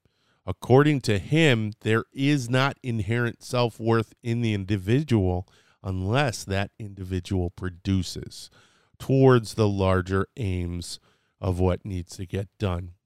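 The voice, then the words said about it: Slightly scratchy voice. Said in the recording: “my voice is getting a little bit scratchy ... allergy season's coming”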